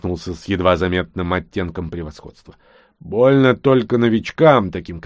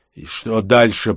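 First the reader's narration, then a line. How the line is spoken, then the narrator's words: Grumbling. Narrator (Russian): пробурчал прыгун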